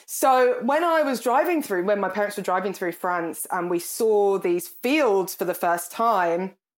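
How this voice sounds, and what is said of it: Birmingham English accent. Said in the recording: “I come from Birmingham. You can probably tell from my accent.”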